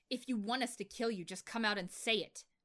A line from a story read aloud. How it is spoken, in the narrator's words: Eren roared